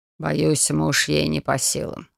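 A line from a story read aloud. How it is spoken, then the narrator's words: Hmphed. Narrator (Russian): хмыкнул он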